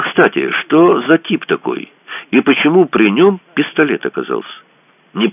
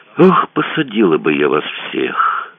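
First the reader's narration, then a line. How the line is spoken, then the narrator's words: Sighing. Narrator (Russian): вздохнула она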